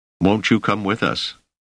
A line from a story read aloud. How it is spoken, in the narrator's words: Selden had asked anxiously